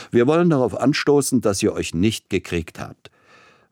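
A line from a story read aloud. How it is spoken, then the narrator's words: Booming laughter. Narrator (German): mit einem besonders dröhnenden Lachen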